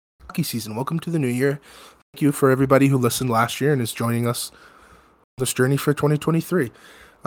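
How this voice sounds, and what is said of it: Sick-sounding, waiter-like voice. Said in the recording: “you sound like you're like a waiter now ... you sound like the waiter from the menu right now ... I'm sick, man ... I got sick again”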